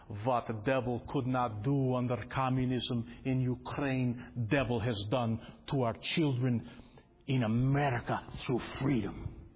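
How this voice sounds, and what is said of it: Cheap imitated Ukrainian accent. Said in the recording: “forgive my cheap accent”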